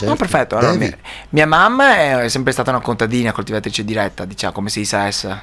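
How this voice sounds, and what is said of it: Strong regional Italian accent. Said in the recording (Italian): “accento come il nostro, piuttosto marcato ... questo accento profondo”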